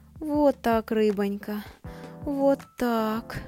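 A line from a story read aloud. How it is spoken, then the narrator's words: Moaning. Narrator (Russian): стонала она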